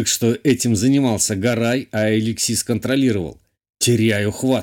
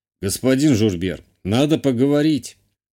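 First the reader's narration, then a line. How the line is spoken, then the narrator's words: Calm declaration. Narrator (Russian): спокойно заявил канцлер Северян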